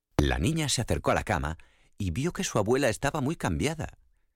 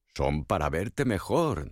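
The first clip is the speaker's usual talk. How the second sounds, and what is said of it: Wolf imitating grandmother's voice. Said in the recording (Spanish): “dijo el lobo tratando de imitar la voz de la abuela”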